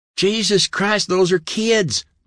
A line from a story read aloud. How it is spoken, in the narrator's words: Billy cried